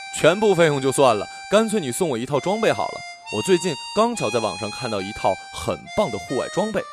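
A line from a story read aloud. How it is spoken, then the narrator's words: Joking. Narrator (Chinese): 死党开玩笑说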